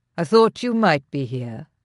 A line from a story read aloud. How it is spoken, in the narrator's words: her husband said coolly